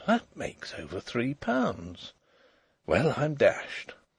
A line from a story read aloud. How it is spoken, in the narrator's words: the young man on the beach moved, and he murmured